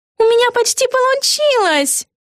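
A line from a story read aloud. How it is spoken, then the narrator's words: Joyful shout. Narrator (Russian): радостно крикнула Эгги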